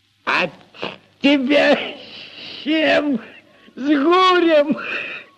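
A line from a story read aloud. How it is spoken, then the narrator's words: Loud laughter. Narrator (Russian): Прохор захохотал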